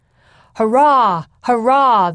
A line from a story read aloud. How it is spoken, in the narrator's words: the men cried